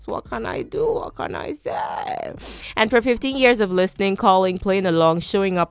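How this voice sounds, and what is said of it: Nigerian accent. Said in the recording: “I'm true Nigerian. The accent slips out.”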